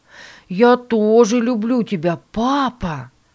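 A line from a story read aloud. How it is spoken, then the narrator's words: Exclaimed. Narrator (Russian): воскликнул Стивен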